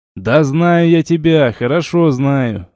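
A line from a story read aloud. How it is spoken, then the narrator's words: Laughing. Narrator (Russian): рассмеялся я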